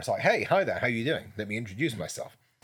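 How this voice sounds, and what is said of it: Deep, level speaking voice. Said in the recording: “I will always have this kind of level in my voice ... I keep that sort of deep voice”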